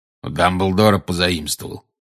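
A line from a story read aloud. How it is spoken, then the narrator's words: Growled. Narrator (Russian): прорычал Грюм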